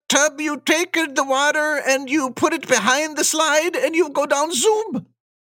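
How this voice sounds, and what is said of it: Put-on Swedish accent, drifting Italian. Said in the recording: “my best Swedish accent. ... your Swedish meatball has a lot of Italian sauce on it ... I don't know what happened there with that accent.”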